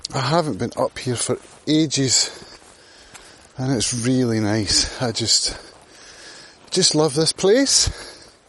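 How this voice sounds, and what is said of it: Out of breath, panting while speaking. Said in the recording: “as you might hear, I'm a little bit out of breath. I have to go up rather a steep hill.”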